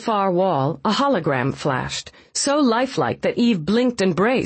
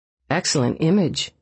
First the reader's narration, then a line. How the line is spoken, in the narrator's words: murmured